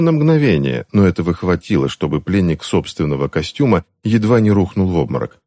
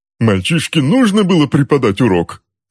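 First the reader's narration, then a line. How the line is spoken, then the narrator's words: Shrill squeal. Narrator (Russian): взвизгнул Джозеф Кэндл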